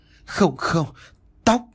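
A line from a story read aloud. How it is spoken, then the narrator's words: Frightened, trembling. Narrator (Vietnamese): Gương mặt của mẹ tôi tái mét run rẩy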